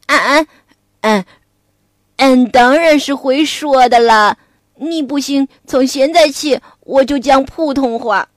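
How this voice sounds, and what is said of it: Rustic dialect-accented character voice. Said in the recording (Chinese): “你能不能换个口音？俺实在受够了，会不会说普通话呀？”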